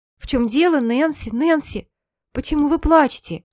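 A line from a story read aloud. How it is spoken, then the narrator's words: Exclaimed. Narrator (Russian): воскликнула она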